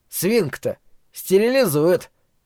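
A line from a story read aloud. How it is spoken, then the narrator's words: Dry objection. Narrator (Russian): сухо возразил Глен Бейтман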